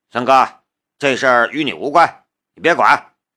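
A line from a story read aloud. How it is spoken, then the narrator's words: Cold. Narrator (Chinese): 徐浪冷冷的道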